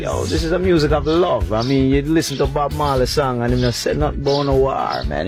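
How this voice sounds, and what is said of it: Distinctive accent. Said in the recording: “the accent gives it away big time”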